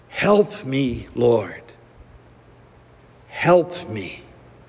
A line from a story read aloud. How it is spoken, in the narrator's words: asks in a calm, prayerful voice